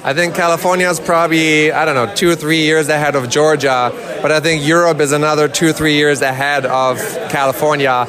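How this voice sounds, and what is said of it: German accent. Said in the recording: “You might hear my German accent there in the background.”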